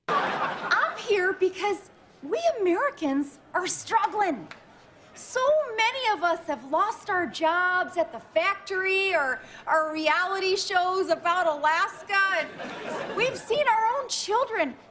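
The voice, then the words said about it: Imitates another person's voice. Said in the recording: “Tina Fey going back to the well of her Sarah Palin imitation ... Tina Fey doing her Sarah Palin”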